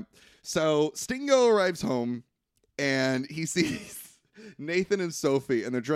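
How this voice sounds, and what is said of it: Usual voice. Nothing is said of it.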